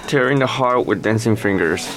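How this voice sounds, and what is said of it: Very affected, showy English accent. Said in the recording (Chinese): “非常做作的口音”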